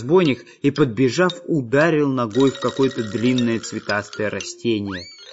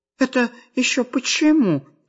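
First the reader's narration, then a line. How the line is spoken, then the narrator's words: Frightened robber asking. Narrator (Russian): испуганно спросил разбойник Дырка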